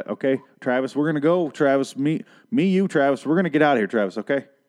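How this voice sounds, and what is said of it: Exaggerated thick Southern accent. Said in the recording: “She has a severe Southern accent now ... she's from Alabama originally ... she has talked in a Southern accent that is so unnecessarily thick ... it's just suddenly very thick.”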